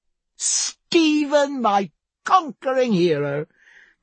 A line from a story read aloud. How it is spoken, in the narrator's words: cried Diana